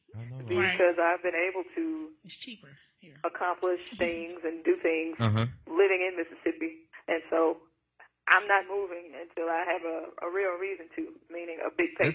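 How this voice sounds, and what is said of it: Mississippi Southern accent. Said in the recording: “My accent is attracted to a lot of people ... I actually have a specific voice being from Mississippi”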